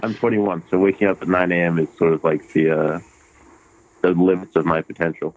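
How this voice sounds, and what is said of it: Hybrid British-American accent. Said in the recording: “I moved to America when I was like 6 years old. ... So I have this like weird hybrid accent. ... Yeah, you do.”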